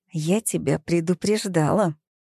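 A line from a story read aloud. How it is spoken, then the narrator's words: Hissed. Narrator (Russian): прошипела она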